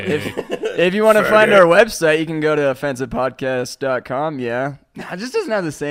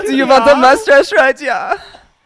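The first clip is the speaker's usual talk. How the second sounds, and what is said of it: Put-on German accent. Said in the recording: “doing a gay German accent. You just have to say yeah at the end of every sentence”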